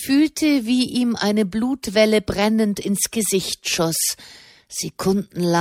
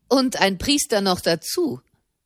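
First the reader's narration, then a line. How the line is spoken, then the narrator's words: Mocking man. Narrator (German): fügte ein Mann höhnisch bei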